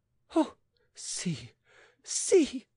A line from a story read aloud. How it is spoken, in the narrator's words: she cried with flaring eyes